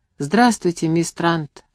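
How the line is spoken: Sleepy reply. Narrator (Russian): отозвался сонным голосом

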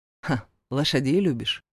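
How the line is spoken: Curious question. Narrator (Russian): поинтересовался я

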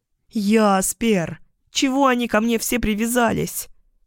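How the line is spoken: Moaning. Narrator (Russian): Простонала я

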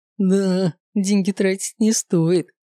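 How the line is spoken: Tipsy giggle. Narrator (Russian): пьяненько хихикнул Горовато

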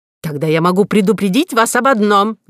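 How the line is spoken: Shouting. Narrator (Russian): закричал Горбуй

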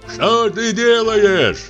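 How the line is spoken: Shout. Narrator (Russian): крикнул Трифон

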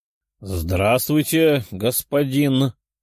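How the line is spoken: Uncertain. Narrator (Russian): неуверенно сказал мужчина

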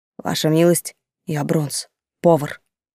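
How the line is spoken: Quiet stout man. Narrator (Russian): полный мужчина с густой бородой тихо сказал

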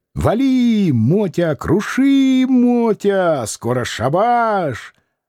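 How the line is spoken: Old man's squealing goading. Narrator (Russian): старичок подзадоривал его, взвизгивая

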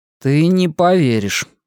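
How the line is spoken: Gloomy reply. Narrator (Russian): мрачно ответил

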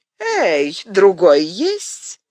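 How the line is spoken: Silently laughing. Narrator (Russian): смеясь беззвучно

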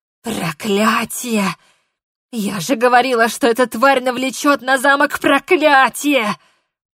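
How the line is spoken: Hoarse rasp. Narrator (Russian): прохрипела она

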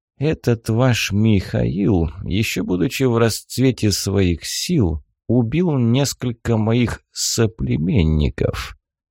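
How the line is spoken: Unexpectedly muffled. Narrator (Russian): неожиданно глухо ответил пленник

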